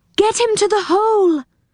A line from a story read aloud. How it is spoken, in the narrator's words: cried Silky